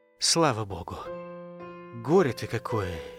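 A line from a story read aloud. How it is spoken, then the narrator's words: Quiet, sincere admission. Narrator (Russian): негромко, искренне признался Исаченко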